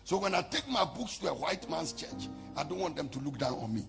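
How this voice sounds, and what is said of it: Strong persistent foreign accent. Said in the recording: “I know I have an accent... even if you take my tongue and re-engineer it, this accent will not go anywhere”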